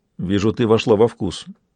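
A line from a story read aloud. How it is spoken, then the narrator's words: Grumbled. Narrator (Russian): буркнул Майрон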